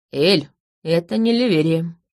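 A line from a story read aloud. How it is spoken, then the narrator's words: Muffled, hollow voice. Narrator (Russian): глухо проговорил стоящий за моим плечом Колин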